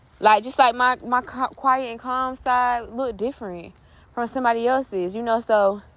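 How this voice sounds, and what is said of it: Out of breath, panting. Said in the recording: “I'm out of breath ... Walking up them steps”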